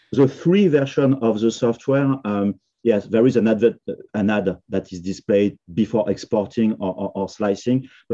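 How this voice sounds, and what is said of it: Non-native accented English. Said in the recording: “Sorry for the accent for me for saying three is a number and three not paying. It's very difficult”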